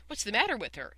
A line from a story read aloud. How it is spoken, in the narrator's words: asked Roy Hart eagerly